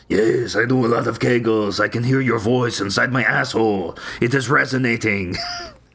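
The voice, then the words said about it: Put-on French accent. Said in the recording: “I don't know why I'm doing a French accent.”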